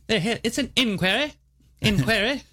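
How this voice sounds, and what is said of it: Put-on British accent. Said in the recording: “You can't say inquiry without a British accent.”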